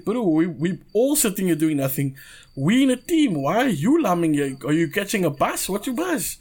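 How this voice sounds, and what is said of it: South African Coloured accent. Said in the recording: “I had a colored accent”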